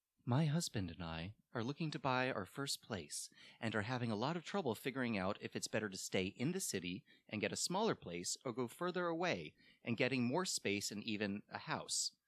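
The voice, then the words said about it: Serious NPR movie-trailer voice. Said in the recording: “What was that voice you were doing? ... NPR voice. ... For his serious question. ... Or like a trailer. Yeah, it was like a trailer to a movie.”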